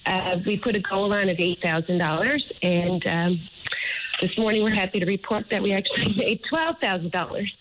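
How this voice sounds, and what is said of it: Emotional, moved voice. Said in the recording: “sorry if I'm getting a little bit emotional”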